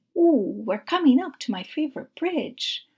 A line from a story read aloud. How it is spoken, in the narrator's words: Julio exclaimed